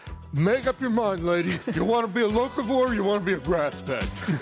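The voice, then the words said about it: Heavy New York accent. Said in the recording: “heavy New York accent”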